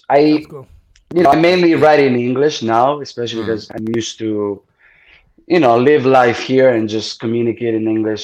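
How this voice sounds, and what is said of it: Non-native English accent. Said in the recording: “your accent ... in your native tongue”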